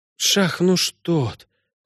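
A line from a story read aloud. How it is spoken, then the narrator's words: Whispered. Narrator (Russian): прошептала Синтия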